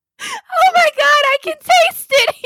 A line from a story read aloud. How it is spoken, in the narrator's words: He screamed